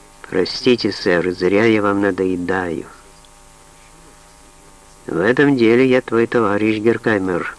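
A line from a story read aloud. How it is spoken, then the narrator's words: Simple and calm. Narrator (Russian): просто и спокойно сказал Саттон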